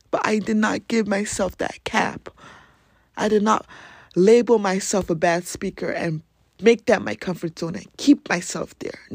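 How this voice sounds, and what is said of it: African accent. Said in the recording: “my African accent”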